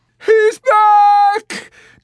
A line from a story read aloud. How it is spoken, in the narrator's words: Dunbar screamed again